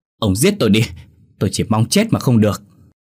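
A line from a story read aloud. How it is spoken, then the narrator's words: Humiliated wailing scream. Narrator (Vietnamese): Vợ hắn nhục nhã quá gào lên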